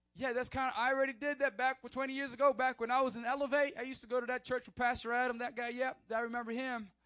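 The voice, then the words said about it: Put-on southern accent. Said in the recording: “I don't know why I have a southern accent, but I do.”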